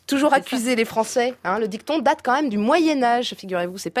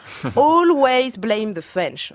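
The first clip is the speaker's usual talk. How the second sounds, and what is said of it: Put-on British accent. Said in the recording (French): “mon accent britannique”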